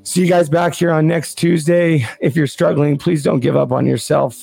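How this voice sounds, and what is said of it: Worn-out, strained voice. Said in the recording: “My voice is gone.”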